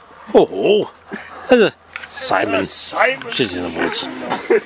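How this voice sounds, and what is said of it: Imitates another person's voice. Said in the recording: “Better in a Terry Wogan voice.”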